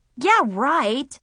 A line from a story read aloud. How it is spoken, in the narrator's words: I scoffed